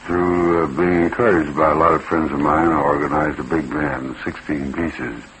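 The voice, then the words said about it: Southern US accent. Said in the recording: “our Southern accent”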